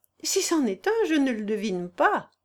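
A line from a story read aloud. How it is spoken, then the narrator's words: Laughing reply. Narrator (French): répondit Amélie en riant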